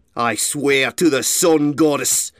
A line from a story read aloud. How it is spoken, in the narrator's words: Iron Hoof growled